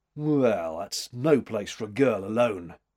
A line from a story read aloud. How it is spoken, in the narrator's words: he growled